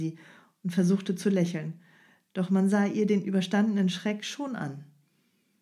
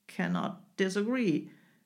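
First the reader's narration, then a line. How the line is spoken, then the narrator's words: Growl. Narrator (German): knurrte der Engländer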